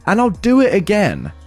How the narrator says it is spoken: shout

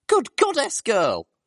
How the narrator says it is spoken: cried one of the mares down from the counter from us

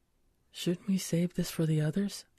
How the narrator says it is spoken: I whispered

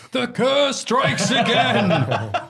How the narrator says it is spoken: Ross shouted

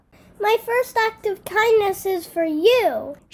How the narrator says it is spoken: exclaimed

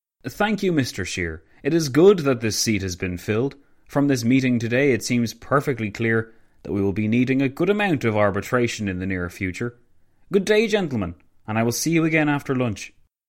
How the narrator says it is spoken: Roosevelt remarked loudly

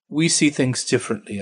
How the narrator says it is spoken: I said

